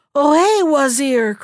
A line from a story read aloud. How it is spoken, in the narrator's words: cried the king